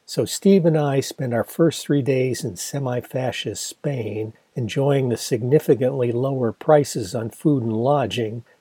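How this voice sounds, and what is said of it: Worn, strained voice. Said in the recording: “My voice gets a bit worse for wear”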